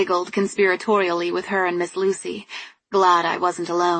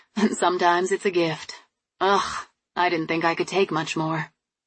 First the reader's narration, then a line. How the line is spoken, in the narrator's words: she sighed